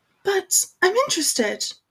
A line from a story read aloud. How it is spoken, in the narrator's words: Hermione said sharply in the swotty, obstinate voice that she generally used when lecturing people about house elves